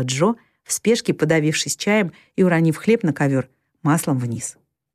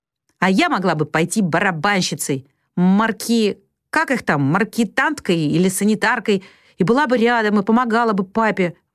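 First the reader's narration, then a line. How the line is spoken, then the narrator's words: Exclaiming, then moaning ruefully. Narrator (Russian): воскликнула Джо и сокрушенно простонала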